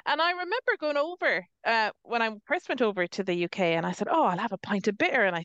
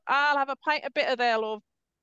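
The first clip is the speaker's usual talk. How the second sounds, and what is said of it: Poor attempt at northern English accent. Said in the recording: “That wasn't even a northern accent, was it? I tried. It was terrible.”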